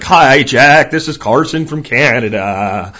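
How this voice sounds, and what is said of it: Not very good caller impression. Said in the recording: “It's not a very good Carson impression”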